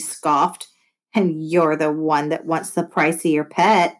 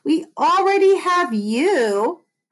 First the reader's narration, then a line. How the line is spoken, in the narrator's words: I yelled